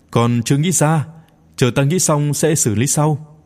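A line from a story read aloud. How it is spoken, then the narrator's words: Smiling. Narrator (Vietnamese): Ninh Vũ Điệp lại mỉm cười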